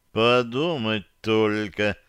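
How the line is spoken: Slow speech. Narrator (Russian): медленно проговорил он

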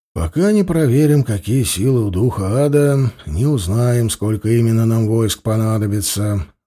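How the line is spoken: Sighing. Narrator (Russian): вздохнул Манивальд

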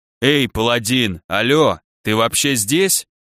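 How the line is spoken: Panther growling, human voice. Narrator (Russian): Человеческим голосом прорычала пантера

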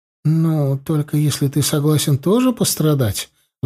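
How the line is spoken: Sighing. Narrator (Russian): вздохнула она

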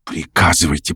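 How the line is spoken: Whisper. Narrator (Russian): прошептал Артур

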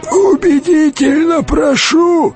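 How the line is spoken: Creaky voice. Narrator (Russian): сказал он своим обычным скрипучим голосом

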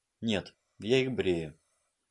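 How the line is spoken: Quiet. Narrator (Russian): тихо ответила она

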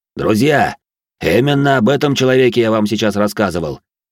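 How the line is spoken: Cheerful booming bass. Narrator (Russian): Веселым голосом пробасил он

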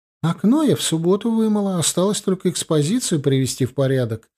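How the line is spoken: Joyful chirping. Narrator (Russian): радостно щебетала она

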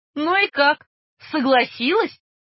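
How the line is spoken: Roaring laughter. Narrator (Russian): расхохотался лейтенант

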